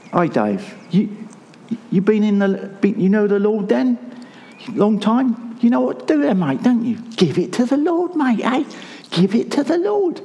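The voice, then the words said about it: Imitated South London accent. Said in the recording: “I'm not going to get his accent right. He was from South London ... another impersonation”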